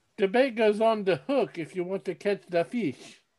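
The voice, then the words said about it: Put-on accent. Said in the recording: “I don't know why I'm continuing with the accent.”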